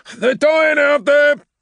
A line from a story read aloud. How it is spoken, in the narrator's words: Caelius shouted into the vox